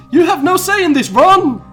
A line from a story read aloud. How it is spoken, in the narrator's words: Harry yelled